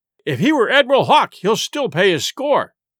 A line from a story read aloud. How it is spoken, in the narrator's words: cried Silver